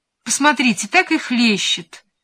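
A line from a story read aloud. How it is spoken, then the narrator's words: Agreeing. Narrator (Russian): поддакнула графиня-младшая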